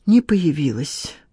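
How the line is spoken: Sigh. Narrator (Russian): вздохнула Надежда

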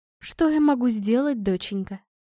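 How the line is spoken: Sigh. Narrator (Russian): вздохнула она

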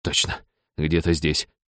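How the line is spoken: Male mutter. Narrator (Russian): бормотал Сакай

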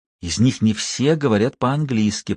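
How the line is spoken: Whispering. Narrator (Russian): прошептал Ник

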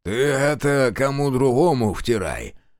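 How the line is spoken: Lazy drawl. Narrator (Russian): лениво сказал старшина

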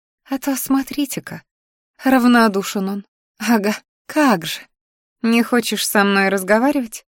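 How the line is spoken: Purring. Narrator (Russian): мурлыкнула я

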